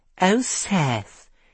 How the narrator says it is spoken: she said in a pathetic voice

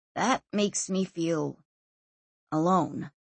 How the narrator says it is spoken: he said quietly

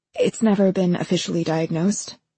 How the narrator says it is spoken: she said eventually

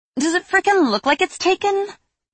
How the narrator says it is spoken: Lillian spat

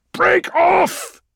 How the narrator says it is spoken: roared Argonis in his ear

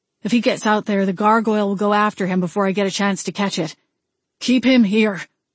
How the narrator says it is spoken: Wade grunted as he tackled the gargoyle

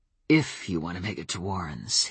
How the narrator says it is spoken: he said, his voice almost guttural

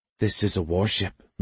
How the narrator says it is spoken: Magnolia whispered

